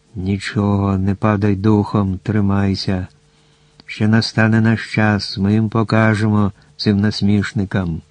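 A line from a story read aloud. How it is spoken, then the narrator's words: Owl whispering in ear. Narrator (Ukrainian): пугач шепотів йому на вухо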